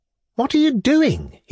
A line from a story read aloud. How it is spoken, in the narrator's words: he cried